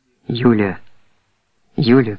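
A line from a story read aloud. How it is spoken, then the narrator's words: Whisper. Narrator (Russian): прошептала она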